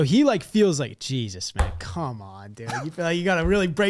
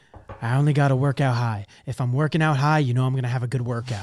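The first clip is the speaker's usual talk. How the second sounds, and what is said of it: Imitates another person's voice. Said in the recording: “That's good impression.”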